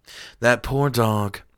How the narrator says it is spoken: muttered

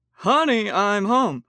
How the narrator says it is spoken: he called out

